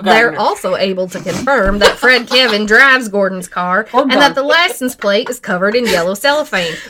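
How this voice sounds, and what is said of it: Fake Southern US accent. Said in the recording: “a fake Southern accent”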